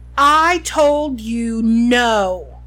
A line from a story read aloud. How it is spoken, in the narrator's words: Lucius Malfoy roared